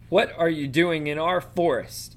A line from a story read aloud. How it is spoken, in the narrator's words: bellowed the hard hard faced gray centaur